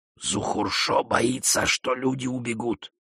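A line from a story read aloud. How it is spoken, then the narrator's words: Whisper. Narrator (Russian): прошептал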